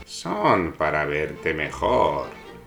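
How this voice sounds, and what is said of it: Wolf imitating a grandmother's voice. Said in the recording (Spanish): “dijo el lobo imitando la voz de la abuela”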